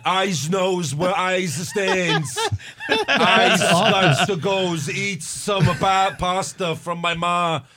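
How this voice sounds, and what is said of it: Exaggerated put-on New York accent. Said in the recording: “his accent is so obnoxious and he's like overdoing it ... trying to do his New York accent”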